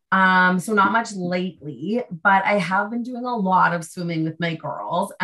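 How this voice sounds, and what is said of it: Slightly raspy voice. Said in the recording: “my slightly raspy voice, I have a bit of an allergies, a bit of a cold”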